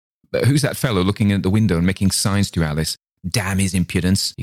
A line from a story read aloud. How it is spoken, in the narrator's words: cried